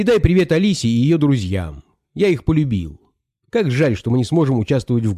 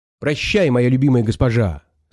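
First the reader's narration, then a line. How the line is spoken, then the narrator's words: Plain. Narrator (Russian): сказал Гайдо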